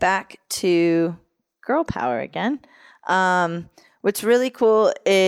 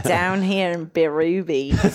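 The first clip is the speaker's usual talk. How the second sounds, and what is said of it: Put-on Australian accent. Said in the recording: “put on a good Australian accent ... suddenly it sounds perfect”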